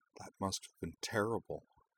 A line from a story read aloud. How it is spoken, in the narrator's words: said softly